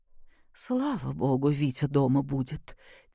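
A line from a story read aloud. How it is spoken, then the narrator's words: Quiet. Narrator (Russian): тихо проговорила со своего места Любовь Сергеевна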